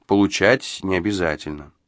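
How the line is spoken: Calm. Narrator (Russian): спокойно ответил хозяин

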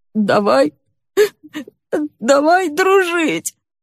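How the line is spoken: Sobbing, hard to understand. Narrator (Russian): Из-за рыданий трудно было разобрать его слова

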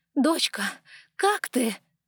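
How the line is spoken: Agitated shout. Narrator (Russian): взволнованно крикнула Ева

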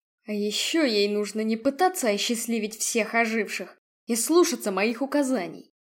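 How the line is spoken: Grumbled, regaining composure. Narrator (Russian): буркнул генерал, беря себя в руки

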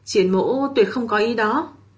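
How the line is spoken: Quiet sigh. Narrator (Vietnamese): Triển Chiêu thầm thở dài một tiếng

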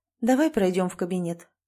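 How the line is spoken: Level, even voice. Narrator (Russian): предложила она тем же ровным голосом

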